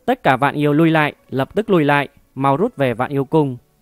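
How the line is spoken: Sudden loud command under duress. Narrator (Vietnamese): đang bị 12 tổ vu quấn lấy, đột nhiên lớn tiếng nói

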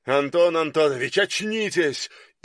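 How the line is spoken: Shouted. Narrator (Russian): крикнул

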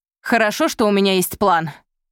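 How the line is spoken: Shouted reply. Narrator (Russian): крикнула в ответ Изольда

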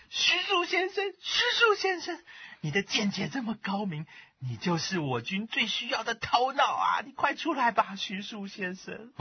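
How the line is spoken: Loud pleading shout. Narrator (Chinese): 很用力的拍着木门，大声喊着

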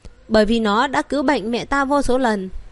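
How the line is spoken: Serious. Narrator (Vietnamese): Vân Triệt nghiêm nghị nói

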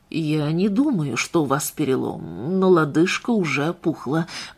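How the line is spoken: Quiet. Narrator (Russian): произнес Дженнингс тихо

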